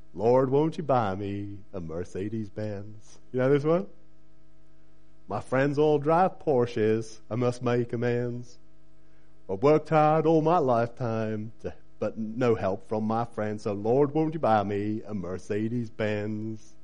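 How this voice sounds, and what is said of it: Singing in a put-on American accent. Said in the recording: “I might actually sing you a song now. So Be warned, even in an American accent.”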